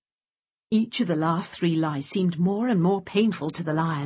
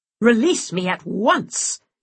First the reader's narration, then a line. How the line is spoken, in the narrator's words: he roared at the hare